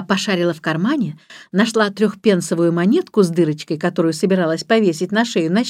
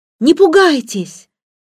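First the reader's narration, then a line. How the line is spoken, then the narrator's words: Pitying shout. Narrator (Russian): ей стало его жалко, она крикнула ему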